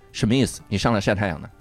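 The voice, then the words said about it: Tony Leung TVB Mandarin dub impression. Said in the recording (Chinese): “他的声音特别像 TVB 里面国语配音的那些男演员 ... 梁朝伟那句话 ... 晒是很像 ... 这晒太阳那三个字特别像 ... 很像 TVB”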